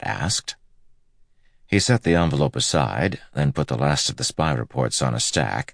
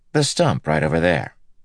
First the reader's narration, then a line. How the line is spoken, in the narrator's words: Matt said